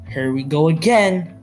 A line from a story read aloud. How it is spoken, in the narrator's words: Rohan and Rakshit yell